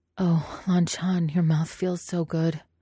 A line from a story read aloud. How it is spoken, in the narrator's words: he moaned